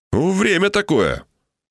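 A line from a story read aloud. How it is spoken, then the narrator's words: Snorting. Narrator (Russian): он хмыкнул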